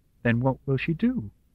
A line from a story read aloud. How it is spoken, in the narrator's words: Charlotte asked calmly